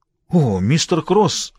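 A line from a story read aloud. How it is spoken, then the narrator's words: Exclaiming. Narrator (Russian): воскликнул Харви Дуб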